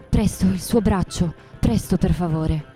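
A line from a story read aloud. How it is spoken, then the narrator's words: Choked voice. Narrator (Italian): mi disse con voce soffocata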